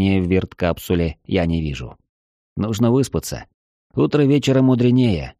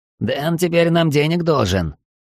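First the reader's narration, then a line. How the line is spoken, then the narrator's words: Angry wheeze. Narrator (Russian): зло просипел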